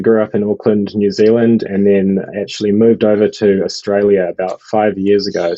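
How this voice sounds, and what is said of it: New Zealand accent, slightly congested. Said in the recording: “the voice gives it away ... my New Zealand accent, or Kiwi accent ... battling a bit of a cold”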